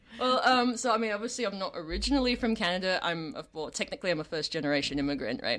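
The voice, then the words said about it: English accent. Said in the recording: “speaking in English with an English accent”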